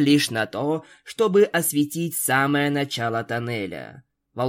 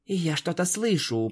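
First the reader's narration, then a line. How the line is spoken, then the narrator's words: Whisper. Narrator (Russian): прошептал Спайк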